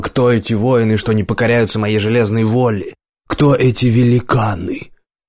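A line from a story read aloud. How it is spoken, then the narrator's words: Shouted. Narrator (Russian): Иван Грозный закричал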